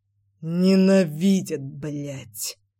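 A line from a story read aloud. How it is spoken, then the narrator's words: Hissed with open fury. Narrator (Russian): процедил Нагашов с нескрываемой яростью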